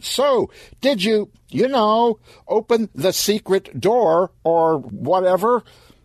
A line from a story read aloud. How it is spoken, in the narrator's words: Stan shouted